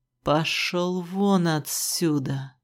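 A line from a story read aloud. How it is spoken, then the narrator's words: Sudden guttural growl. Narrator (Russian): Вдруг утробно зарычала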